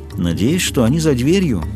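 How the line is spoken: Calm. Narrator (Russian): спокойно ответила Веда

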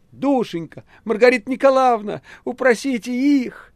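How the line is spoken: Shout. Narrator (Russian): Наташа закричала Маргарите

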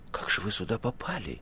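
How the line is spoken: Whispered question. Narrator (Russian): шепотом спросил Иван

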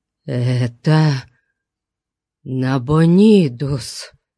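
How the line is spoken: Forced out. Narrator (Russian): выдавил Мурило

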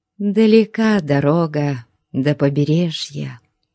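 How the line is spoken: Tender speech. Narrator (Russian): ласково сказала она

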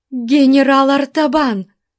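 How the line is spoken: Exclaiming. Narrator (Russian): при виде которого она воскликнула

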